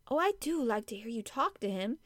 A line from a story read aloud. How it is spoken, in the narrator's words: said, laughing delightedly